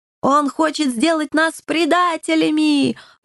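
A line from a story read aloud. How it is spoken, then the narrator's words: Menacing yelling cats. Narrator (Russian): грозно заорали коты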